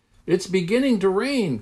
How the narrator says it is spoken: cried Henry

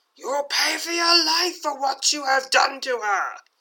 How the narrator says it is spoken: She screams

